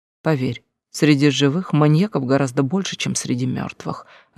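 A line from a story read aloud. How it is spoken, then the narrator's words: Soft laugh. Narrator (Russian): рассмеялась тихо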